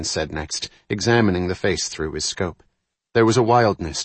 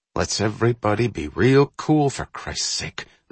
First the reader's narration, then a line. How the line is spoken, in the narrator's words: the sniper breathed